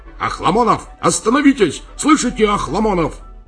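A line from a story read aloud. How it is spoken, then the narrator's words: Frightened shout. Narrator (Russian): Подполковник испуганно крикнул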